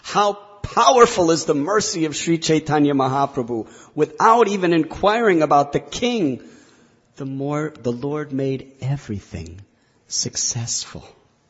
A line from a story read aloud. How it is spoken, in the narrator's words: Kaviraj Goswami exclaims